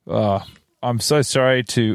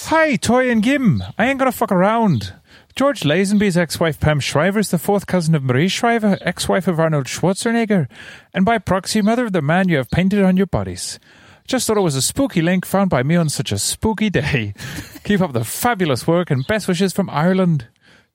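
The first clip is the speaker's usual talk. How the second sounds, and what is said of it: Put-on Irish accent. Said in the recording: “Could you read it again in an Irish accent, please?”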